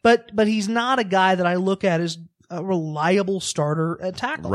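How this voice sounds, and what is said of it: Usual voice. Nothing is said of it.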